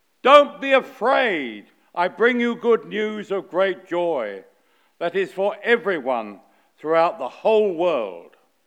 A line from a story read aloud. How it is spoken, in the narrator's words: shouted the angel in perfect angelic fashion